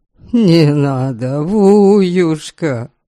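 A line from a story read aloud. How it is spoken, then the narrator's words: Exasperated moaning. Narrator (Russian): стонал Ваята, не зная, как отделаться от этой заботы о его счастье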